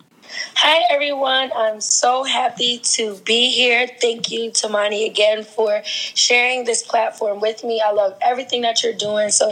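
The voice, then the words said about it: Raspy voice after losing it. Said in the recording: “I lost my voice yesterday, so my voice might sound a little raspy ... She just lost her voice”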